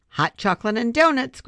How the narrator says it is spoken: Grandma called out

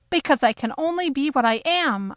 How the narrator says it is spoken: I shouted

